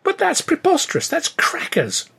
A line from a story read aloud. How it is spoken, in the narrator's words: I exclaimed